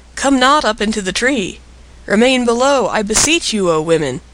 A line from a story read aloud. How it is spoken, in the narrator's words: He was alarmed for the safety of his frail platform and he cried